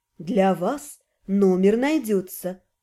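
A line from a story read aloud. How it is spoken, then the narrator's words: Husky alluring assurance. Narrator (Russian): с волнующими хрипловатыми нотками заверила его Аролия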